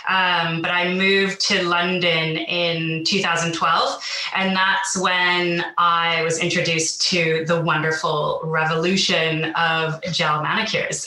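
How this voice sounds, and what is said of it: Canadian accent. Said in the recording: “you can probably hear from my accent, I'm not originally from the UK, so I'm originally from Vancouver”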